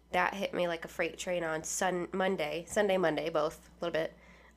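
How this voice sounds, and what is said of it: Congested voice from a cold. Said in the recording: “fighting a damn sinus cold... Apologize for my voice.”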